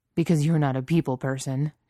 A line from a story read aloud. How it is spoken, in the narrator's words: Jensen scoffed